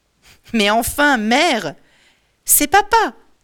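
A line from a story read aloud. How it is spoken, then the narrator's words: Exclaimed. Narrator (French): s'exclame Télémaque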